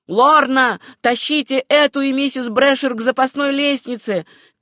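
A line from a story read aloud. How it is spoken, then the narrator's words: Old man shouting. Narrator (Russian): крикнул старый Том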